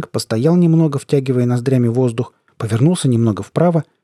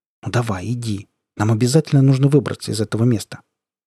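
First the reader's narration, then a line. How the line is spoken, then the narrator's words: Quiet. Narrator (Russian): тихонько сказал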